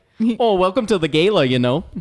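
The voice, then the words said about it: Clumsy put-on Upper Midwest accent. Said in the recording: “it sounds very like Wisconsin ... I think that was Canadian ... I'm bad at accents.”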